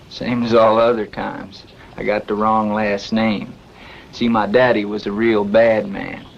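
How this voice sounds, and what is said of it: Well-done Southern US accent. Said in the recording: “Jack speak with a southern accent. I think it's a well-done accent.”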